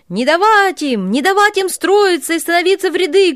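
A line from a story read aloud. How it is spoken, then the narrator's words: Commander shouting. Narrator (Russian): кричал кошевой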